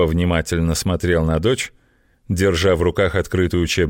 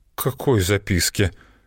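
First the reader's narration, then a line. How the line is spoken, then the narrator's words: Timid stammering question. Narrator (Russian): заикаясь, спросила Злата, робко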